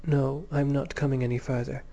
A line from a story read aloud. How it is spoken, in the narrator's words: said Beryl